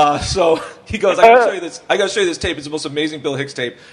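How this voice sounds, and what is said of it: Usual voice. Nothing is said of it.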